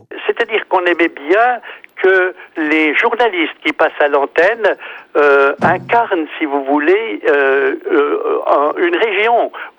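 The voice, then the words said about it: Natural Swiss Jura French accent. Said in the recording (French): “accent jurassien ... mon accent jurassien ... il est naturel, il est spontané, il n'est pas artificiel”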